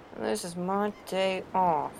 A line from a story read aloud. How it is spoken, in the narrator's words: McCoy mutters under his breath